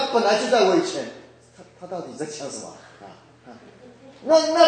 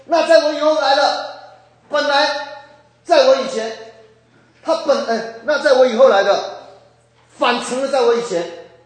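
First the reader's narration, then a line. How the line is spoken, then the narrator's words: Urgent shouting. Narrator (Chinese): 约翰 有一个那种迫切的心，喊着说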